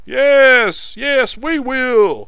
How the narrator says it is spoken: shouted Rufus

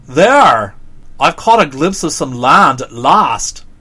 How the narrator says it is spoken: the orc exclaimed

